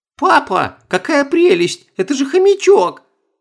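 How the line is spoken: Delighted squeal. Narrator (Russian): восторженно взвизгнула Оля

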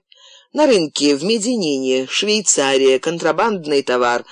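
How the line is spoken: Laughing. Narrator (Russian): рассмеялся Боукелика

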